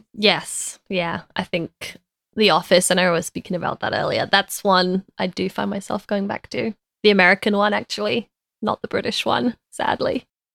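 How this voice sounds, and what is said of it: British accent. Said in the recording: “you still have your British accent”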